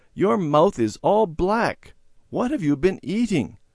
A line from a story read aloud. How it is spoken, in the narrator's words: Mother exclaimed